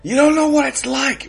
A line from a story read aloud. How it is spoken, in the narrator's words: Rocket yells, overwhelmed with anger